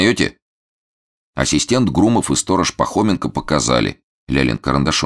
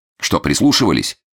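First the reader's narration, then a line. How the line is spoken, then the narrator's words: Plain. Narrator (Russian): спросил сторожа Фондорин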